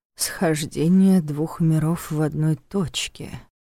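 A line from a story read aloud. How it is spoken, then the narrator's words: Thoughtful drawn-out voice. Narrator (Russian): задумчиво протянул Нев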